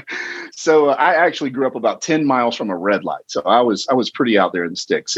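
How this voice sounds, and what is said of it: Southern US accent from Georgia. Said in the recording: “the sort of sticks of southeastern Georgia, if you can't tell by the accent.”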